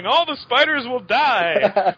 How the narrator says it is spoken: the last Madam Webb yelled

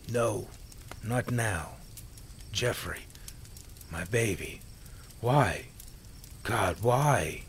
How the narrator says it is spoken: Jane cried quietly through the tears and sniffles

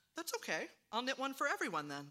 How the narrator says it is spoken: said Val

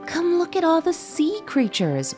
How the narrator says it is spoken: my brother exclaimed

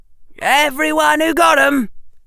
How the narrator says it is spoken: Harry said loudly

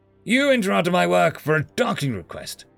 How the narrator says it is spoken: she roared

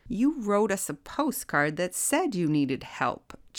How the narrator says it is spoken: chuckled Surly

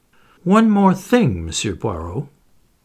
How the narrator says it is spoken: he said in his suave and mocking voice

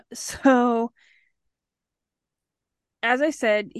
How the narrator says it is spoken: he yelled back

